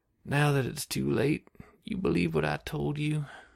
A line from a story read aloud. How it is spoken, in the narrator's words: She sighed heavily